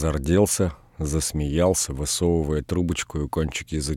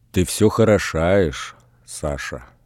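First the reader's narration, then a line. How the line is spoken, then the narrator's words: Slow, sighing speech. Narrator (Russian): Людмила легонько вздохнула и медленно промолвила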